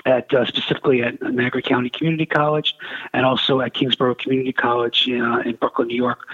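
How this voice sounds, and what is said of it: Brooklyn New York accent. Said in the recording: “In case you couldn't tell from my accent, that's where I'm from.”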